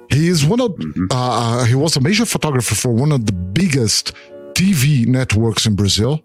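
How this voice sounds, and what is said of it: Brazilian accent. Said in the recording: “my accent ... Santoro is how we pronounce his name in Brazil ... from São Paulo, Brazil”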